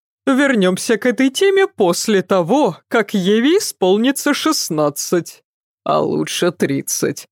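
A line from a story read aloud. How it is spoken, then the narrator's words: Laughing. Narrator (Russian): засмеялся Адам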